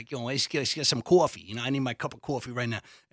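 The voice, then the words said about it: Exaggerated Long Island accent, like E. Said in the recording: “I came from Long Island, And I sounded like, for fans of Entourage, I sounded like E.”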